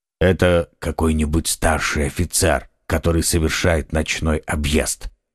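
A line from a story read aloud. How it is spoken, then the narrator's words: Quiet. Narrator (Russian): тихо сказал Атос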